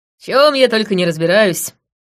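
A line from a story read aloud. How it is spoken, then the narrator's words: Wry snort. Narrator (Russian): хмыкнула я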